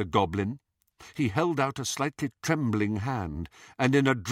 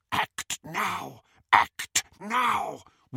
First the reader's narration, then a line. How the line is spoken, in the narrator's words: whispered Griphook in Harry's ear